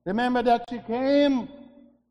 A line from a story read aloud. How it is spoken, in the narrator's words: she cried, and she called